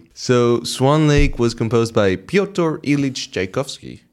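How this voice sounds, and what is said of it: Put-on accent on Russian name. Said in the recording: “Nice accent.”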